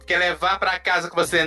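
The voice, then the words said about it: Man imitating a woman's voice. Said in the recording (Portuguese): “Eu tenho muito talento, fazer voz de mulher não é um deles.”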